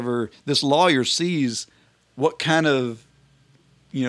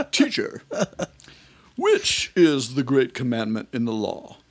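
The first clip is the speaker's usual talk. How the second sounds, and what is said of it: Put-on British accent. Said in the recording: “I kind of keep hearing this British accent in my mind.”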